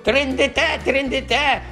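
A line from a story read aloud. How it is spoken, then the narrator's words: Shrieking. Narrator (Ukrainian): верещав Єнсі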